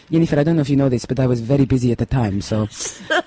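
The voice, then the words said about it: Generic Spanish accent imitation. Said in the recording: “You do the accent so well, too ... it's just a generic Spanish accent”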